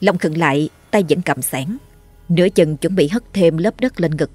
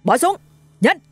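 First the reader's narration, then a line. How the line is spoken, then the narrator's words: Roaring command. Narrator (Vietnamese): Một cảnh sát khác gầm lên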